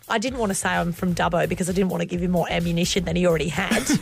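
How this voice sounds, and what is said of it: Australian accent. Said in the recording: “you sound Aussie, but you don't sound like you're banging it on ... they don't get any more Australian than you”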